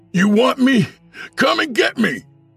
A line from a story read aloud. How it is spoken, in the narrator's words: Fred shouted